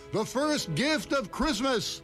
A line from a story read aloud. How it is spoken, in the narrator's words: the elves roared their approval